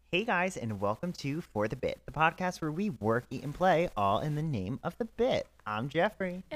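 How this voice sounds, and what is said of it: Slight put-on southern accent. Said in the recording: “I kind of slipped into a southern accent at some point. Did you hear that a little bit?”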